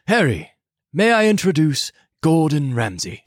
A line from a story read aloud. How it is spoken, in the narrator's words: Dumbledore said calmly